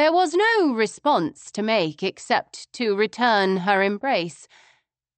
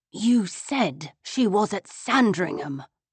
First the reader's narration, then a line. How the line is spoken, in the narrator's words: I hissed at him through smiling teeth